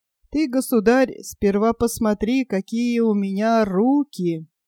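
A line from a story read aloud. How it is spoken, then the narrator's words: Laughing reply, big fellow. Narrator (Russian): железной детина, рассмеялся и отвечает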